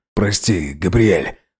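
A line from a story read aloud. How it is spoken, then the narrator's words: Hoarse, wheezing voice. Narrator (Russian): Роберт в каждом слове безуспешно боролся с неуправляемым хрипом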